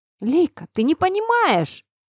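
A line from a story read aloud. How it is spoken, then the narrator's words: Shrill squeal. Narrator (Russian): взвизгнул Артем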